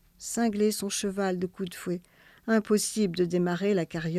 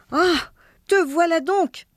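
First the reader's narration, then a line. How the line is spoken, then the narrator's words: Exclaimed. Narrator (French): s'écria sa femme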